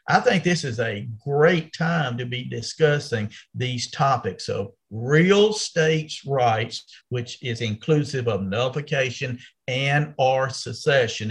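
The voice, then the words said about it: Southern American accent. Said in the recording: “you can tell by your accent, you're a Southerner”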